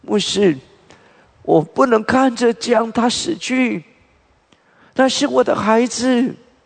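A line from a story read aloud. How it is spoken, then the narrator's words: Crying mother. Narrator (Chinese): 这位妈妈哭着起来说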